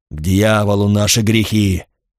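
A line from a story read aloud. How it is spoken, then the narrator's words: Growled. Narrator (Russian): прорычал отец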